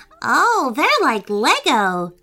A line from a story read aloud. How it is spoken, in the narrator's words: cried Griffin happily